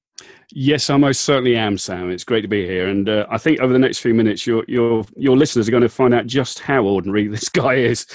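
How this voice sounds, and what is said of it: English accent from the UK. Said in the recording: “already the accent's out of the bag ... you're not from Ohio ... from the Midlands in the UK ... West Sussex on the south coast of England”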